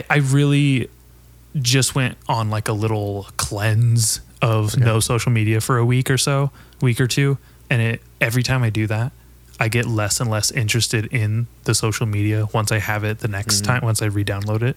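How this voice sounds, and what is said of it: Vocal fry. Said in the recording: “I have like vocal fry. Do you hear that? ... A little bit. ... It's texture.”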